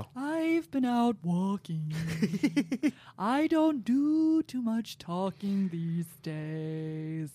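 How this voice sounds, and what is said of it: Imitates another person's voice. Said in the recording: “a Nico impression ... Mine's really good ... That is pretty good, yeah ... my Nico impression”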